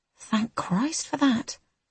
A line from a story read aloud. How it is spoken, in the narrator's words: I mutter